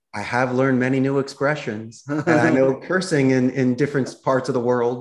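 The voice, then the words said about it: Philadelphia American accent. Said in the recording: “I emphasize my Philadelphia accent a little bit more.”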